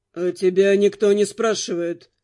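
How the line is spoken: Grim curt retort. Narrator (Russian): мрачно отрезал Руперт

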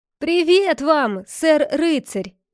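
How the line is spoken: Loud call. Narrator (Russian): громко окликнул его отец Тук

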